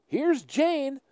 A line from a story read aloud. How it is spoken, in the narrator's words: Uncle George, who has been looking out the window, exclaims